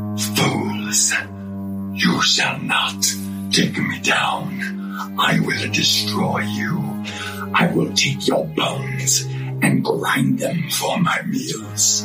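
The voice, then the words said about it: Very deep evil villain voice. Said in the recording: “I can do the super duper deep evil voice. ... I can get down low with the evilness.”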